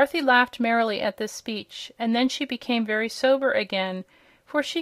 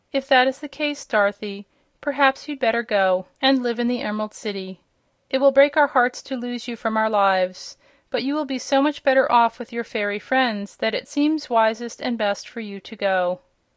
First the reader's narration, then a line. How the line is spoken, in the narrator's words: Aunt Em said, with another sigh of regret